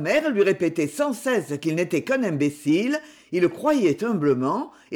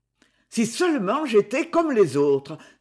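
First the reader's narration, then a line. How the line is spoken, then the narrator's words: Bitter exclamation. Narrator (French): s'écriait-il parfois avec amertume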